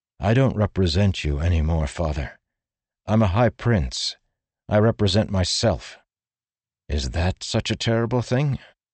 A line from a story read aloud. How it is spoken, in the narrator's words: sighed